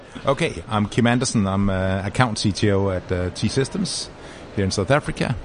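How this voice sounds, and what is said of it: Danish accent in English. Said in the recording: “My funny accent is because I'm actually from Denmark”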